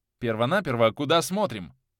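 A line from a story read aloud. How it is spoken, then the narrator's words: Stern question. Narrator (Russian): строго спросил у него Валяев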